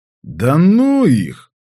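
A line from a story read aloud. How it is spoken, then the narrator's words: Lazy reply. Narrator (Russian): лениво ответил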